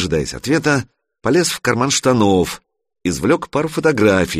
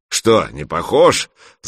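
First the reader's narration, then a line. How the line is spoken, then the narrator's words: Giant's booming laughter. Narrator (Russian): захохотал гигант, увидев изумление Санька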